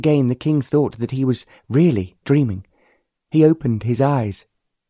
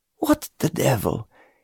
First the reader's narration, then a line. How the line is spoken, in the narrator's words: he began to mutter